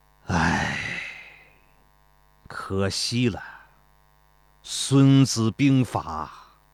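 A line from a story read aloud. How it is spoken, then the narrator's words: Sighing. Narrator (Chinese): 庞涓叹道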